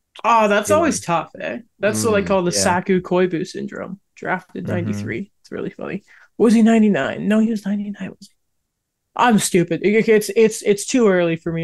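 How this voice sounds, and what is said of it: Low, groggy morning voice. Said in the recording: “my voice sounds about 5 decibels too low”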